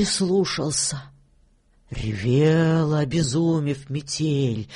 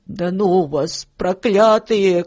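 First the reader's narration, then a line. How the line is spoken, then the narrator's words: Angry shouting. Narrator (Russian): кричал он на мышей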